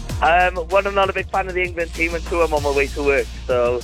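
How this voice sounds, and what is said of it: Welsh accent. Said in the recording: “I can hear a Welsh accent.”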